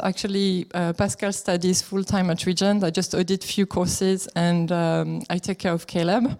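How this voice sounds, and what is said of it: French accent. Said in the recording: “as you can tell with my accent, we are from France”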